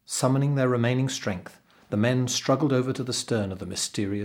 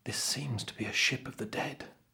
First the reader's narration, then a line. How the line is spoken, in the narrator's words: said the servant quietly